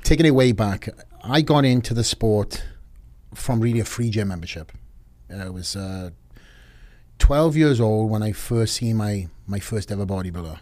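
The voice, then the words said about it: Distinctive authentic accent. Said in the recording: “We have a great accent ... this is authentic”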